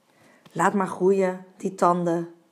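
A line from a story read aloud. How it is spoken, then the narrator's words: Soft speech. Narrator (Dutch): Varken zei zacht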